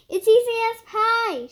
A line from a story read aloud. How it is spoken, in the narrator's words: shouted Fox